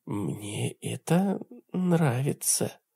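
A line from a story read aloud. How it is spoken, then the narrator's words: Whisper from above. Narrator (Russian): донесся сверху ее шепот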